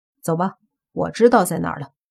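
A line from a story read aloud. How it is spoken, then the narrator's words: Cold. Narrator (Chinese): 莫凡冷冷的说了一句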